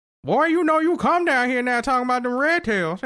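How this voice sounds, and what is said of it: Put-on Southern accent. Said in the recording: “with a southern accent. With a southern accent. ... That sounds like every person trying to do a 1920s voice.”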